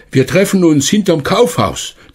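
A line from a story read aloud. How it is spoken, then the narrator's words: Called out. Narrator (German): Er rief noch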